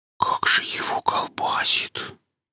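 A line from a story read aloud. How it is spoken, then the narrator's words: Whispered. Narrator (Russian): прошептал Пистон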